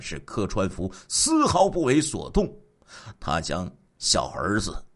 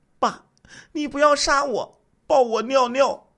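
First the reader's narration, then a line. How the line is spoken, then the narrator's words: Small child crying, pleading. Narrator (Chinese): 四岁的次子连声哭求，说道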